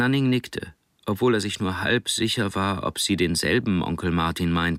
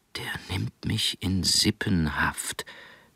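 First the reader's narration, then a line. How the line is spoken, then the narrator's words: Whispering to self. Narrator (German): wiederholte Nanning zu sich selbst, flüsternd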